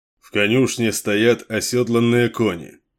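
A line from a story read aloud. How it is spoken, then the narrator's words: Plain. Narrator (Russian): сказал ему Кейн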